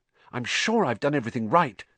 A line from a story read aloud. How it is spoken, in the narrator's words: said Hermione, nervously